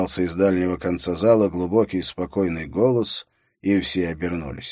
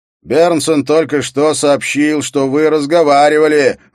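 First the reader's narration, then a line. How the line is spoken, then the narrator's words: Shout. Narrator (Russian): выкрикнул Скарре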